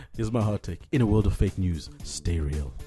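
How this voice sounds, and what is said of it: Smooth radio announcer voice. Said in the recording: “you've got a crazy radio voice”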